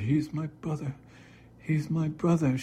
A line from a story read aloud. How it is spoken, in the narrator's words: she kept on sobbing